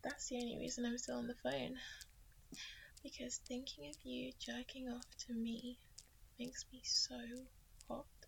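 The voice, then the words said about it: Sultry, seductive voice. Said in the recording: “I know how much you love this sexy voice.”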